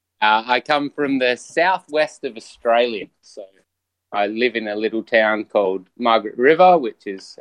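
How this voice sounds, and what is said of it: Australian accent. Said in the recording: “People have probably guessed by your accent”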